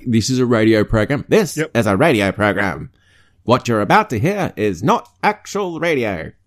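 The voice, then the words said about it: Old-timey radio announcer voice. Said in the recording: “That's my old-timey radio voice.”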